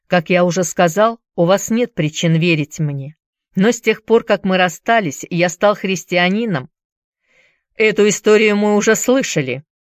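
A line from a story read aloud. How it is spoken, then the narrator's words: Sharp interruption, marshal. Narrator (Russian): резко оборвал его маршал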